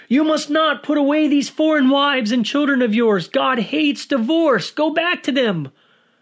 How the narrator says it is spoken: yelling

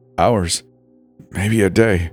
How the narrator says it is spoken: James croaked, his voice dry and cracked

